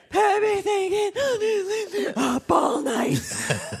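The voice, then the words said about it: Imitates another person's singing voice. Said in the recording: “my Brittany impersonation”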